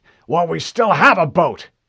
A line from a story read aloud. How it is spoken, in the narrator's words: Admiral Whitcomb barked